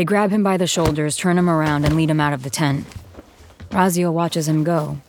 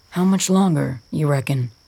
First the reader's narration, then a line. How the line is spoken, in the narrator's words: Rainer asks